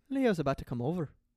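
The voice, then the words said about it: Put-on Irish accent, pretty good. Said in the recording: “say it in an Irish accent. ... Actually, that's pretty good. ... He nailed that.”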